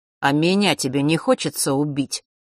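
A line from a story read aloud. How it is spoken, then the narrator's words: Sudden snort, boy. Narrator (Russian): хмыкнул вдруг мальчик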